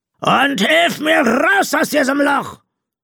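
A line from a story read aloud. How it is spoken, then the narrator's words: Roaring captain's voice. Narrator (German): die brüllende Kapitänsstimme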